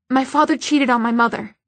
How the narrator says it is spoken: Isabel blurted out

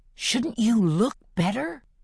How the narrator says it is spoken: asks in a loud whisper

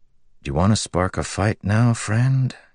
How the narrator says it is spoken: Kaladin asked softly

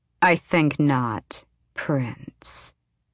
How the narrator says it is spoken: she said in her midnight voice

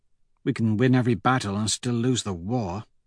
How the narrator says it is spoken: Severo mutters

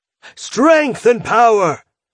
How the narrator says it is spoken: shouts from the crowd, cheering

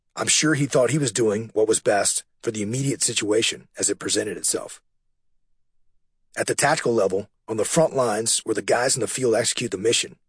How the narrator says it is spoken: I said

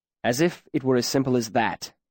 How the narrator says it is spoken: Kvolth said sharply

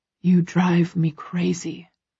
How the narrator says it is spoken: he whispers

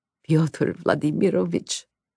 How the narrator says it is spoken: Oleg began, croaking

